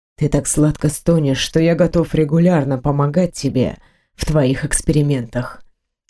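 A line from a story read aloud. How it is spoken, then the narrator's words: Whisper. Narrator (Russian): Грегор прошептав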